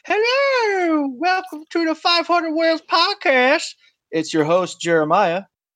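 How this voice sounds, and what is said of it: Imitates another person's voice. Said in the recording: “in my best Zach voice.”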